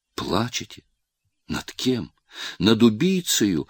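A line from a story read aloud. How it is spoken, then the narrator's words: Exclaimed. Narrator (Russian): воскликнул Рылеев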